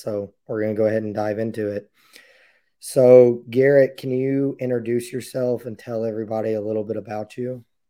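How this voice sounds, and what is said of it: Strained voice, losing it. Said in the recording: “don't mind my voice ... losing my voice and can't seem to recover from it”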